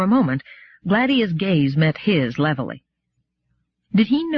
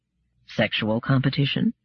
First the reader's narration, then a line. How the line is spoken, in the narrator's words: said Nandamus calmly